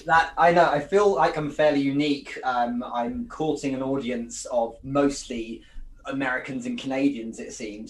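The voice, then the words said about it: English accent. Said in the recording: “the accent helps it too, because who doesn't like to listen to an English accent”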